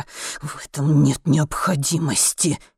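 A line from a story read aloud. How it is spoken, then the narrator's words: Hissing. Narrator (Russian): прошипел Гриппе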